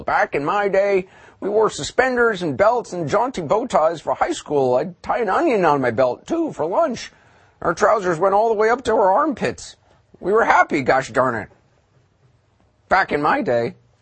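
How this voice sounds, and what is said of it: Old-timer character voice. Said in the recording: “feeling like I'm 100 years old ... I don't know who I'm imitating.”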